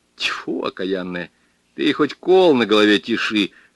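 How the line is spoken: Angry spitting. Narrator (Russian): злобно плюнул бригадир

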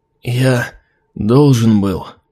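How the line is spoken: Hoarse rasp. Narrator (Russian): прохрипел 13-й

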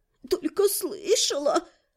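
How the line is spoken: Sobbing. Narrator (Russian): Всхлипнула

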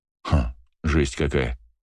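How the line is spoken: Smirking snort. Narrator (Russian): хмыкнул я

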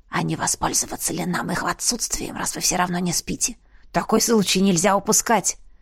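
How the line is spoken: Conspiratorial whisper. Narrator (Russian): заговорщицки прошептал Ласк

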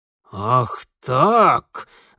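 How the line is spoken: Sinister, through teeth. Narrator (Russian): зловеще процедил урядник

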